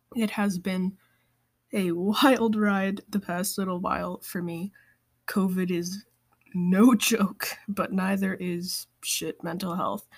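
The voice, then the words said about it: Sick, rough-sounding voice. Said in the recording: “I have COVID. In case you were all wondering why I sound so awful, that is why.”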